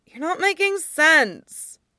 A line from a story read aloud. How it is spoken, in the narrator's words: Aang groaned